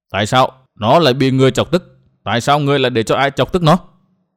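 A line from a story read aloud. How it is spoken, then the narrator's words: Calm but sharp. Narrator (Vietnamese): bà rất bình tĩnh hỏi Mai Nương lên hồi với một giọng gắt gao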